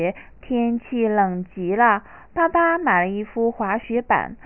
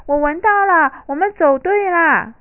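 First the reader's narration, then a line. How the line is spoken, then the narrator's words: Excited echoing shout. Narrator (Chinese): 他激动的叫声在整个森林里回荡着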